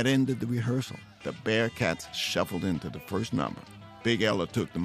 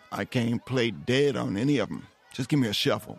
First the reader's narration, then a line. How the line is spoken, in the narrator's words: Rufus said